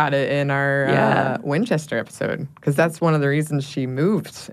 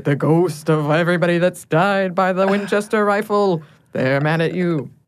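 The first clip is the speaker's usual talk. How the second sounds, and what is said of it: Dramatic, ghoulish put-on accent. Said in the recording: “I love the accent that you gave to that. To make sure ... had the drama. ... It's very ghoulish.”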